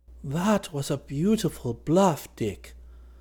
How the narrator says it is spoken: Dunark exclaimed

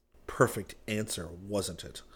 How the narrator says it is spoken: Rick said bitterly

